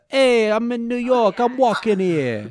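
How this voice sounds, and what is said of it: Put-on New York accent. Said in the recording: “It's very Joey Wheeler ... New York Italian ... that accent”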